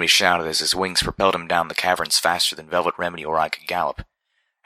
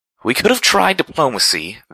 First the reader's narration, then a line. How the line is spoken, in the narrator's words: Velvet cried out as she ran for her life